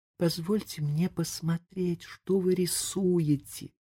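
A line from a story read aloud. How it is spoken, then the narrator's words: Whisper. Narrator (Russian): прошептала она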